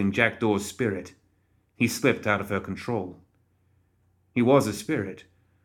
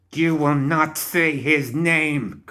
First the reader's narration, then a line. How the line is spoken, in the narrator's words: Karai screamed